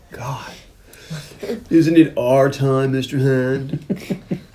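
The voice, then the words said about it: Stoner surfer character voice. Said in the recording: “I was doing my Spicoli voice, which needs some work... It was spur of the moment Spicoli... That sounds a lot more like... Bill and Ted”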